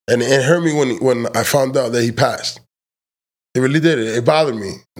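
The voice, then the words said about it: Crackling voice, sounds near tears. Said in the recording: “my voice is crackling ... it sounds like I'm about to cry”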